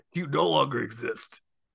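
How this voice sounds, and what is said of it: Gruff impression of another person's voice. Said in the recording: “surprisingly good Vince McMahon impression ... got a little bit of a cold. It's perfect. ... That gruff voice”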